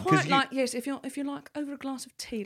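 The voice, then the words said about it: Posh English accent, old librarian. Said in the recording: “can you do a posh accent? ... it's like an old librarian ... It's more in the front of the mouth, in the tongue.”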